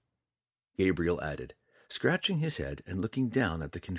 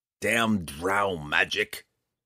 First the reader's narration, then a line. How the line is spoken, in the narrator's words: Roddy grumbled